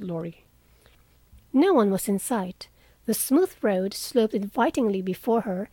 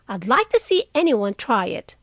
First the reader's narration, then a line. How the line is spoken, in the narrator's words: cried Joe fiercely